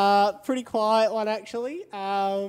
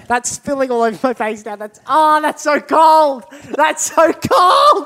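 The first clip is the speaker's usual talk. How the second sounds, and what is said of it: Screaming in pain. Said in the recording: “Why are you screaming in pain?”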